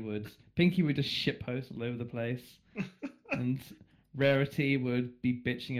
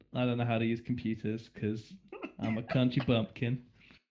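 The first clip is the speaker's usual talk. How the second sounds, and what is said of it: Put-on American country accent. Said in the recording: “He's not going to do an American accent, if it's only for a moment. ... you did it anyway ... You did great.”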